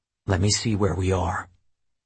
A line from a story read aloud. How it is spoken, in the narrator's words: Tanner leaned toward my ear and whispered